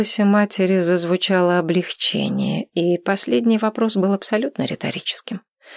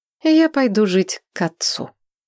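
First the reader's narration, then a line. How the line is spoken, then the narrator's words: Even, flat voice. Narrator (Russian): тем же ровным голосом сказала я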